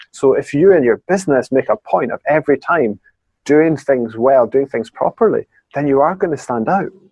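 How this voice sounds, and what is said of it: Scottish accent. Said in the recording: “another awesome Scottish accent. I just love hearing that accent.”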